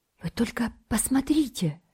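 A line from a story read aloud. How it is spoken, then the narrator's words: Whisper. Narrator (Russian): шепнул он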